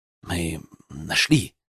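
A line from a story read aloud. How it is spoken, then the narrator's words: Quiet, almost whispered. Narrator (Russian): продолжил он тихо, почти шепотом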